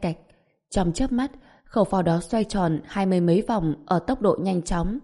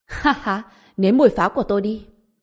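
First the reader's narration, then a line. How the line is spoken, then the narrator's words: Angry, excited, manic. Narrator (Vietnamese): vừa tức giận vừa hưng phấn nói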